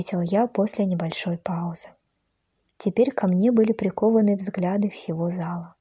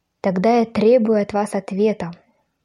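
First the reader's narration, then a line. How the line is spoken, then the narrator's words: Commanding voice. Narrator (Russian): властным голосом проговорила она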